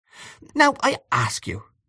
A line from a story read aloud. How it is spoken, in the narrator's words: she said almost testily